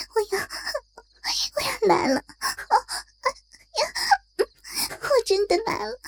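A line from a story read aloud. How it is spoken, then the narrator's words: Breathless shouting. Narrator (Chinese): 立即气喘吁吁的呼喊着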